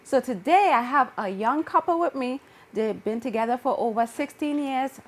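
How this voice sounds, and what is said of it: Speaks with a noticeable accent. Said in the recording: “Yes, I have an accent, but you should understand what I'm saying”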